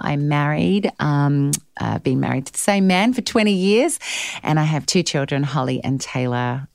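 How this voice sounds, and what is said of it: Australian accent. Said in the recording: “accent, it's Australian. It's not English. It's not British. It's Australian.”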